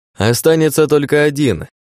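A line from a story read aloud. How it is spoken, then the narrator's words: Cheerful shout. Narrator (Russian): весело прокричал я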